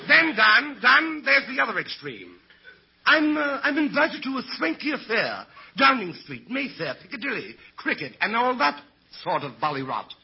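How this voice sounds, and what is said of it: Put-on English accent. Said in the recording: “where did you get that English accent? ... Authentic, ain't it?”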